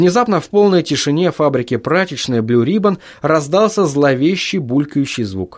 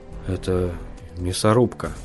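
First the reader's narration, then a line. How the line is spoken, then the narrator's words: Quiet. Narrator (Russian): тихо произнес Хантон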